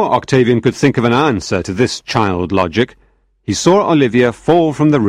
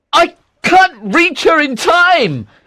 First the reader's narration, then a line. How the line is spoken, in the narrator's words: he shouted